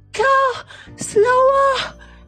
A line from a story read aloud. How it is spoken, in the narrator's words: panted Mrs